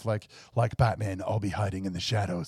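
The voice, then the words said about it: Batman character voice. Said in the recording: “I like how you put on the voice.”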